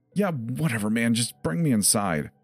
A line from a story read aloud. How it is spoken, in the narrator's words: Jeff cried back